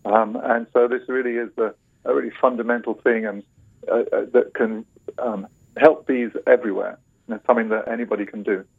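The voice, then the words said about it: British accent. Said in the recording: “I recognize their British accent”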